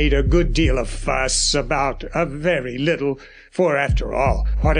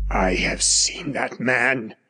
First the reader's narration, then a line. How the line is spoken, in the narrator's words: he began in a dry whisper